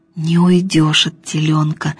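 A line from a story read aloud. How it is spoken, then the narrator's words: Whispering. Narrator (Russian): шептал Емеля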